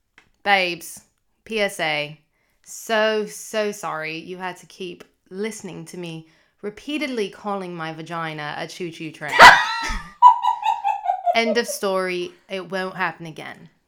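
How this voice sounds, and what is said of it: Put-on British accent. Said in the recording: “Can you please say it in, like, a British accent?”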